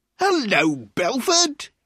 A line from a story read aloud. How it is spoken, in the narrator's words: he cried loudly